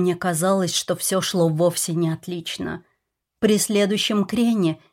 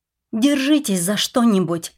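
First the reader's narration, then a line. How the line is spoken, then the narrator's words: Hoarse shout. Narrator (Russian): Хрипло прокричала я детям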